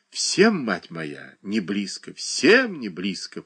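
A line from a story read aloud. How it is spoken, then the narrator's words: Old woman muttering. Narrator (Russian): пробормотала старуха в капоре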